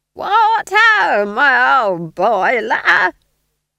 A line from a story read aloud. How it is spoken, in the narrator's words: she screeched above the din